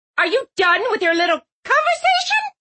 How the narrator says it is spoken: Mom asked, her voice shrill

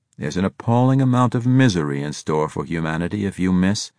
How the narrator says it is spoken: he said in a philosophical tone

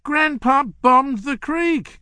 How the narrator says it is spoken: cried Ronnie

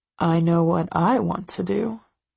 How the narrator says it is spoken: he murmurs

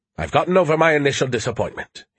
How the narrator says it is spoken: he said more cheerfully

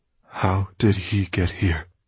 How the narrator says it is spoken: said Risa in a faltering voice

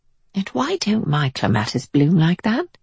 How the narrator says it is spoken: whispered to herself

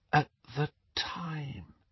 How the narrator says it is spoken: she finished in a whisper

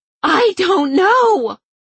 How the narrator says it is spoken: Holly screamed, her eyes streaming

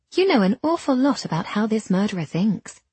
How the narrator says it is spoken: I said sweetly

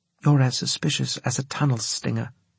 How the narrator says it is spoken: she said

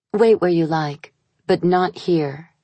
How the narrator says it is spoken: she said

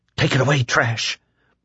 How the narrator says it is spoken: Lloyd whispered

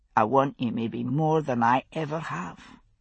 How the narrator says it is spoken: he said quietly

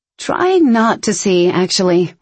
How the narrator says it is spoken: Ryan said in a dry tone

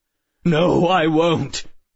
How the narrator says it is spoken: he cried

